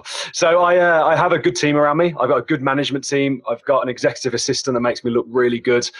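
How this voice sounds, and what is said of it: British accent. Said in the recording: “a beautiful British accent”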